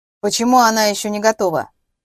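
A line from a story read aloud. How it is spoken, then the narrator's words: Displeased, capricious tone. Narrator (Russian): проговорил председатель недовольным капризным тоном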